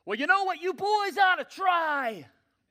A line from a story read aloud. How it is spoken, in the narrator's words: the man from shore, obviously not very good with social cues, hollered back